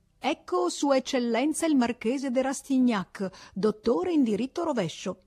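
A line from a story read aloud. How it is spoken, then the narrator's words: Exclaimed. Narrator (Italian): esclamò Bianchon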